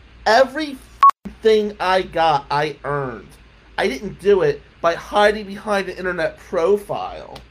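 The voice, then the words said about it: New Jersey accent. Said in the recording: “I got a Jersey accent”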